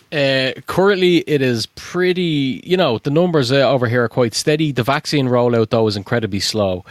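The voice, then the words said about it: Irish accent. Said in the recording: “you might be able to tell from the accent. What's it like in Ireland?”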